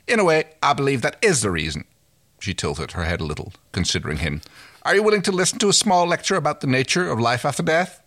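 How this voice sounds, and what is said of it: Wandering put-on accent. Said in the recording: “I'm no idea where I'm going with this accent”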